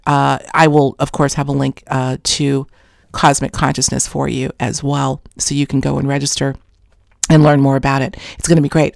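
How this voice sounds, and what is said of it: Voice going hoarse. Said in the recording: “losing my voice. Can you tell? I am losing my voice.”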